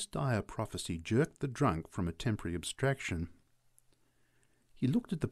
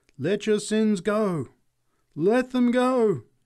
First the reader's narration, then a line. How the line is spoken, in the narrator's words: she cried